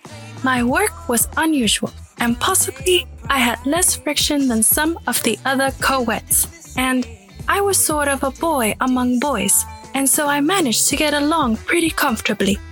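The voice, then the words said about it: Put-on British accent, inconsistent. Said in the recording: “you started going British. She goes in and out.”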